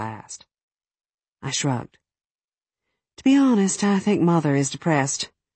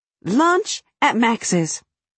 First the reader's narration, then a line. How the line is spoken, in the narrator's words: Cat blurted